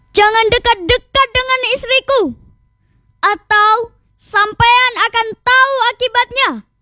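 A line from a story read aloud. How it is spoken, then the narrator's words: Harsh rebuke. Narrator (Indonesian): hardik Raden Baron Kusumo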